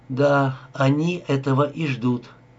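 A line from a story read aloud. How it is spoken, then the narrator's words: Even voice. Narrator (Russian): произнесла ровным голосом Анита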